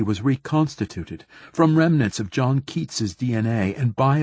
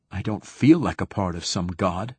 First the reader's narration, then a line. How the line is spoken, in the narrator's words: I said sharply